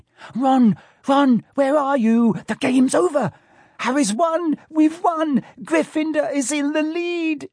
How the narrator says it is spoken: shrieked Hermione

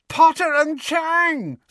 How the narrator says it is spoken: screeched Pansy

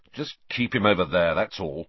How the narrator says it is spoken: said Ron, irritably

